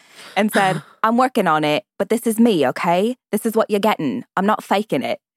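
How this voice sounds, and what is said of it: Put-on British accent drifting Cockney. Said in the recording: “I love the Cockney-ish of that accent you just did... you started more proper and then got to Cockney”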